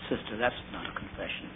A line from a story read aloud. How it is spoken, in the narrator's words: I just said gently